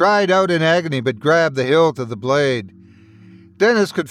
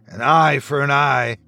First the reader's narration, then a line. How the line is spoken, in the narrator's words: he snarled